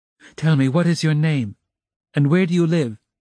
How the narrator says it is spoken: she said hurriedly, in a breathless voice

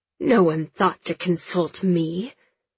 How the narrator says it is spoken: the prince hisses

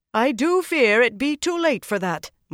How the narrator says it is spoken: Moria said loudly

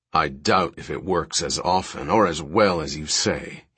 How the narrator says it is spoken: he said thickly

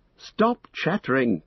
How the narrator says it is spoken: cried Frodo, now recovered enough to feel both amused and annoyed

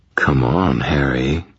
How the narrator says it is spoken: Leah purred, her voice gone smoky again

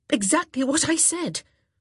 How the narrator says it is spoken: Daphne very nearly snapped, her nerves stretched taut by the long and stressful evening

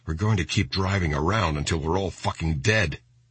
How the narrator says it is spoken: Schilling muttered to himself

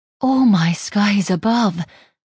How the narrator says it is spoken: Gwyneth breathed

